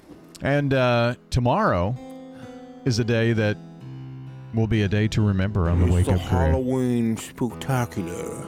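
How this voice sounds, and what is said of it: Imitates another person's voice. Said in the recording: “my Alfred Hitchcock impression”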